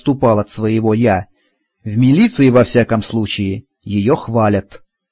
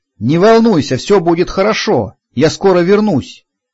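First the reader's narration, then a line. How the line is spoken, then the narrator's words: Shouted. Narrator (Russian): прокричал я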